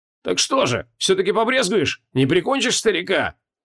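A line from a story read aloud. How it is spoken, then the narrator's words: Shout after someone. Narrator (Russian): крикнул вслед Хабокин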